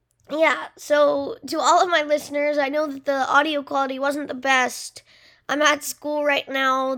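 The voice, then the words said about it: Hoarse, fading voice. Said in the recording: “As you can hear, I'm kind of losing my voice.”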